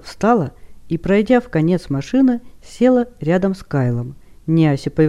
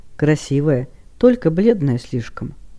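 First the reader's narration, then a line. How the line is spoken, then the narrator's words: Quiet after throat-clearing. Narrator (Russian): Правитель Дейрегона, потерявший дар речи на несколько минут, наконец откашлялся и, поняв, что девушка спит, тихо заговорил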